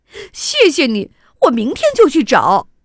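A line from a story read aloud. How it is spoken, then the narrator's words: Smiling. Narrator (Chinese): 迪卡笑了笑说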